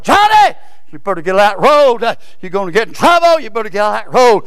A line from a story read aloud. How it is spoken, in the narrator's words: Directly his sister hollered